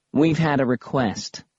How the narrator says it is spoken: he said

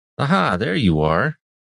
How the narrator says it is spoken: Rashan said, chuckling

